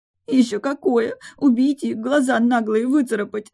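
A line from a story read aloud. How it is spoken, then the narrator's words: Sobbing. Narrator (Russian): Прорыдала я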